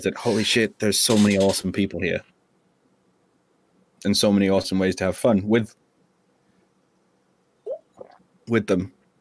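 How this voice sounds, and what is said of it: English accent. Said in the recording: “I don't have the accent like you've got ... I'm against two English accents”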